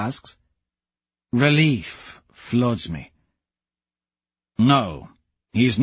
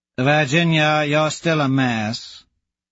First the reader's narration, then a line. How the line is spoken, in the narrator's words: Azure drawls